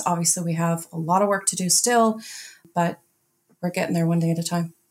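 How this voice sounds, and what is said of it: Scottish accent. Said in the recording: “a strange Scottish accent that nobody could understand”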